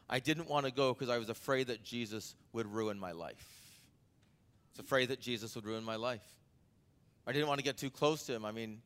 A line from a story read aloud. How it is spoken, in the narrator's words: he said